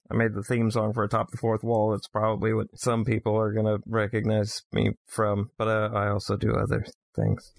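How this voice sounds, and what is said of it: Thick Swedish accent. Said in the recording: “my very, very, very thick accent, I am in fact Swedish”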